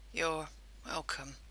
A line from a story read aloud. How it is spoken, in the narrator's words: murmured